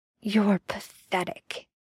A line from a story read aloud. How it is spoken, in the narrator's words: Dean spat